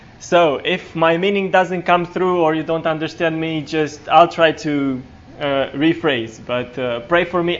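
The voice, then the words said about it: Non-native English accent. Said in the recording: “y'all think I preach funny or speak funny ... English is not my native language”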